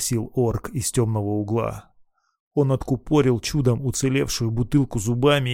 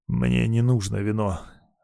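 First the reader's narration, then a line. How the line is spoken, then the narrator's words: Hoarse reply. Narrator (Russian): хрипло ответил Марк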